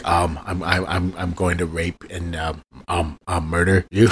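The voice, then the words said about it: Imitates another person's voice. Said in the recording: “my horrible Goldblum impression”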